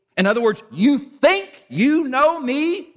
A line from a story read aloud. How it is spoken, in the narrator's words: Jesus shouted